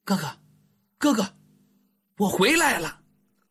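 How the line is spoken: Breathless soft child's call. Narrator (Chinese): 那个小脑袋气喘吁吁的，轻声的喊了一句

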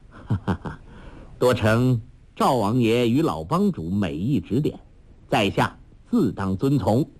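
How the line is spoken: Laughing. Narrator (Chinese): 杨康笑道

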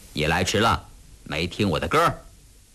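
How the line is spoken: Smiling. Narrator (Chinese): 笑着说

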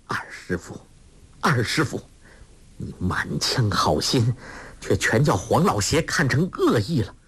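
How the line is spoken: Through gritted teeth. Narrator (Chinese): 咬牙切齿地说

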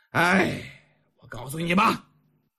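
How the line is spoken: Long sigh. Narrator (Chinese): 钱归南长叹一声

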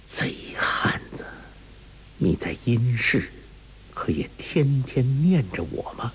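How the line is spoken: Low laugh. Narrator (Chinese): 一声低笑

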